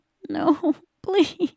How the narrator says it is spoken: he whimpered

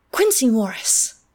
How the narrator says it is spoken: I cried

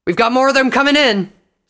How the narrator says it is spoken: Scarlet yelled

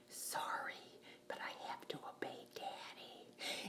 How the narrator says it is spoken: whispered

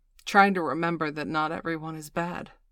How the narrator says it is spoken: Miss Angeli said bitterly between bites of her double-double

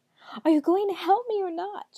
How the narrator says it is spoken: cried

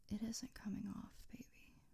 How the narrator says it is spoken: whispered in his ear

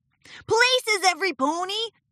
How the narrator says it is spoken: shouted Rainbow Dash

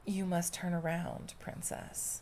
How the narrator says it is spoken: The captain of the guard said gently

